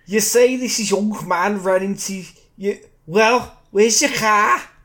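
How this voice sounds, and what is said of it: Police officer voice with accent. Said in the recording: “That's from the police officer. I like the accent.”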